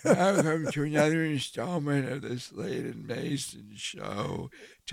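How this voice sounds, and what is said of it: Old man voice. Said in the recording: “I, have been working on this old man voice so I can get ready for it... this is what it's going to sound like in about forty years.”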